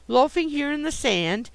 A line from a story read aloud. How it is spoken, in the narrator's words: she exclaimed